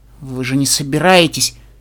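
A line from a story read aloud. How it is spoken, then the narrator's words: Frightened, breaking off. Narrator (Russian): Начала Твайлайт и испуганно, не договорив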